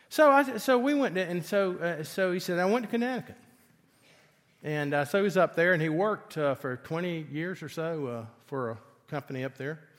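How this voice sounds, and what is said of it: Southern accent. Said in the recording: “I have a southern accent”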